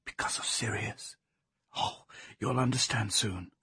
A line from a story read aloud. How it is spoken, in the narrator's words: she whispered